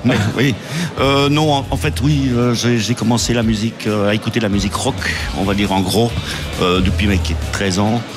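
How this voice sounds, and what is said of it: Brussels French accent. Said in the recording (French): “il avait peur de son accent bruxellois”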